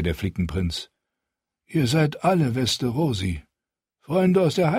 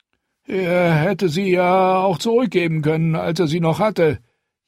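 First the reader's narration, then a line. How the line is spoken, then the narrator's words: Long whining. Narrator (German): jammerte Lucifer lang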